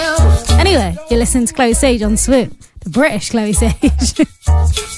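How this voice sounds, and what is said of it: Usual voice. Nothing is said of it.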